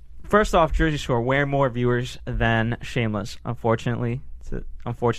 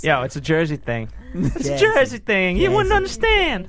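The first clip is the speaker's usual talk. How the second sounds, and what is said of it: Put-on New Jersey accent. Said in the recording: “that impression of New Jersey ... Now he sounds like a ... a poor white lady from Jersey.”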